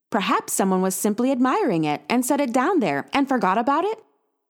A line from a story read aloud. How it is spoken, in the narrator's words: She asked, a hopeful note in her too cheery voice